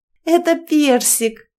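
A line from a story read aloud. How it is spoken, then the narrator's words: Laughing answer. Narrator (Russian): смеясь ответила за дочку Клара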